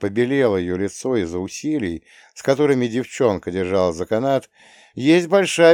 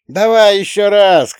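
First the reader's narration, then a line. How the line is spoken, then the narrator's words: Shout from the audience. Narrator (Russian): крикнули из зала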